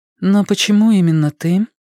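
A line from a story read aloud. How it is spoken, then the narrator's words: Even-voiced question. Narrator (Russian): спросила она ровным голосом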